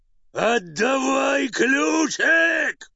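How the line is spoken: Bellowing roar. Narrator (Russian): заорал Карабас-Барабас, разинув пасть

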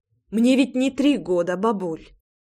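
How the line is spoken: Sad smile. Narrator (Russian): Грустно улыбнулась я

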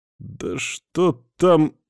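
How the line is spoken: Displeased drawl. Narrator (Russian): недовольно протянул я

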